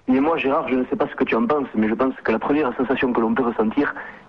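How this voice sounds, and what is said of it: Southern French Toulouse accent. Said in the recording (French): “tu prends pas ton accent marseillais ... tu as l'accent marseillais ... j'ai l'accent toulousain”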